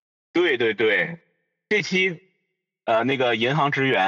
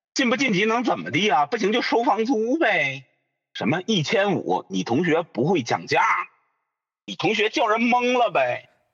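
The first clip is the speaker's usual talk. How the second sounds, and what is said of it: Imitating 小块儿's Beijing hutong accent. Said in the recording (Chinese): “小块儿 ... 拆二代 ... 他就是那种典型的那种北京胡同串的那种口音”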